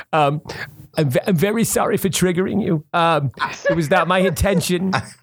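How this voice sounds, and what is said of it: Imitates another person's voice. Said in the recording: “I don't know if this sounds anything like Woody ... This is not a very good impression.”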